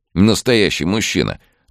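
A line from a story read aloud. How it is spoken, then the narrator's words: Grumbling young man. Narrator (Russian): ворчал парень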